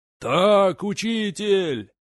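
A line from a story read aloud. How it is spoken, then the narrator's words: Crowd yelling again. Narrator (Russian): снова завопила толпа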